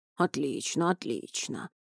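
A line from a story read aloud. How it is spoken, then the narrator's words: Deep bass voice. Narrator (Russian): пробасил капитан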